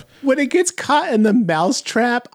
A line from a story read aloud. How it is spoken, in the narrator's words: I laughed my ass off